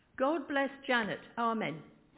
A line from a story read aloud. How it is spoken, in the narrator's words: Going bright red, she said very loudly